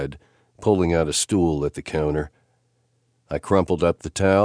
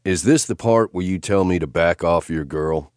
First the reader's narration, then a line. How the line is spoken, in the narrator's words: Steph laughed